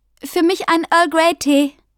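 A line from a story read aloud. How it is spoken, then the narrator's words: Calling over shoulder. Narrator (German): rief Millie über die Schulter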